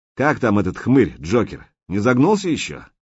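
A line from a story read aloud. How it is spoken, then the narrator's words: Obsequious laughing. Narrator (Russian): Кощей угодливо рассмеялся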